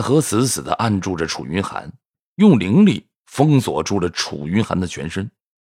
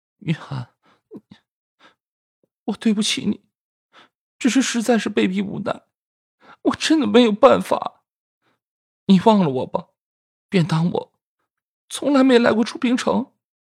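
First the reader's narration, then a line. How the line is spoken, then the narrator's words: Tearful sobbing trembling voice. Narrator (Chinese): 方离韵泪如雨下，他已经是泣不成声了，他颤声地说道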